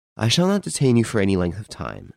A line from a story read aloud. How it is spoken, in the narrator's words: said Rénine